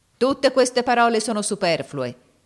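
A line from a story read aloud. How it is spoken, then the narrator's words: Shouted. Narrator (Italian): gridò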